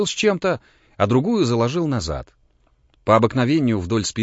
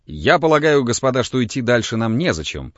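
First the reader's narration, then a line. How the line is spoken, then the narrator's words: Plain. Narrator (Russian): сказал Шишковский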